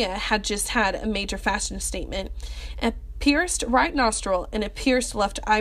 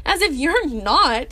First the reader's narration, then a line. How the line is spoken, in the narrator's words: Tony snorted